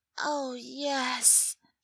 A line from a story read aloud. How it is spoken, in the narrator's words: murmurs